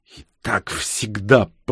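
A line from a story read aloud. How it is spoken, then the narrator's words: Hissed. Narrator (Russian): прошипела Ксения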